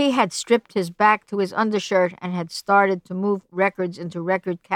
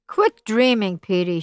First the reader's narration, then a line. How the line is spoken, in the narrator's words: said irritably